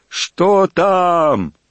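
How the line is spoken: Shouting from a distance. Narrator (Russian): кричали им с берега

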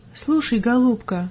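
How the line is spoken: Gentle woman's voice. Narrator (Russian): ласково продолжала женщина

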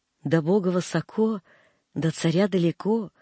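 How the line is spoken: Tender mother speaking. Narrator (Russian): ласково говорила мачка

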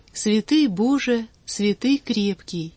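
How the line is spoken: Sad choral chant. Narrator (Russian): в хору, грустно тянул вместе со всеми

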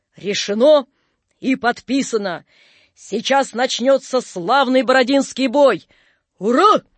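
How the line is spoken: Barked in unison, marshals. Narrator (Russian): гаркнули маршалы

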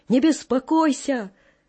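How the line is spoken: Distant shout from darkness. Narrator (Russian): Он издали из темноты крикнул мне

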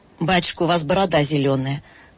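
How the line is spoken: Surprised, then laughing. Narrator (Russian): проговорила вдруг Катя с удивлением и засмеялась

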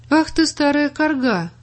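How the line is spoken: Insulting exclamation. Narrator (Russian): оскорбительно воскликнул Миша

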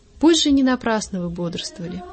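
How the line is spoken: Gentle, kind. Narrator (Russian): ласково сказал

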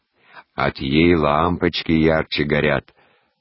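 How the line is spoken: Deep bass interjection. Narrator (Russian): басом вставляла прачка Мария

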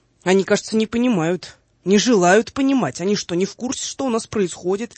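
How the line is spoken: Shouting. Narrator (Russian): Воронцов закричал

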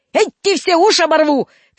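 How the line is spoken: Shouted. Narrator (Russian): кричал дворник

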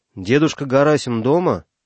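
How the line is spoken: Loud question. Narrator (Russian): Кто-то громко спросил

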